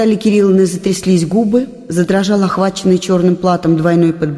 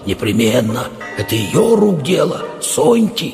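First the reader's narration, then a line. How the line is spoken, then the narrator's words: Sinister whisper. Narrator (Russian): этим шепотом зловещим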